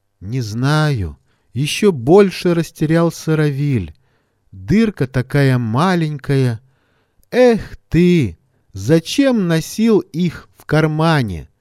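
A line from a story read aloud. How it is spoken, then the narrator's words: Lecturing drawl. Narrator (Russian): Поучительным тоном протянул Лёня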